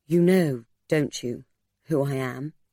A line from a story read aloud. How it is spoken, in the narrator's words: She spoke gently, entreatingly to Mercy